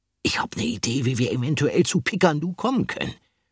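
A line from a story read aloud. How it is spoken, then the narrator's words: Muttered. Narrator (German): murmelte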